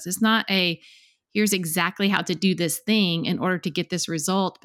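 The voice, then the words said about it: Cute accent. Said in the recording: “You have the cutest accent, by the way. I love listening to you talk.”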